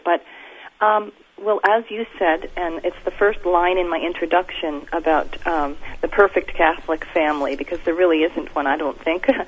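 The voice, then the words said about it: Sick-sounding voice. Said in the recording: “pardon my voice. I'm a little bit under the weather here”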